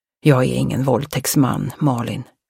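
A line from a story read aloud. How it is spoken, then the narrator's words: Hoarse. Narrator (Swedish): sa han hest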